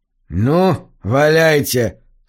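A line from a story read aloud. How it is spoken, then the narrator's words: Defiant grumble. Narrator (Russian): с вызовом буркнул Чейн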